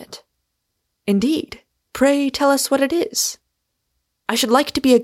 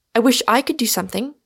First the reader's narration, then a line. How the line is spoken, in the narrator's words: said I